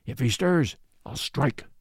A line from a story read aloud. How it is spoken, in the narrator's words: muttered the other